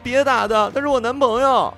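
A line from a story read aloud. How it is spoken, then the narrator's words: Crying out. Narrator (Chinese): 乔小西 叫道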